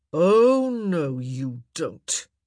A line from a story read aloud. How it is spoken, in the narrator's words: he growled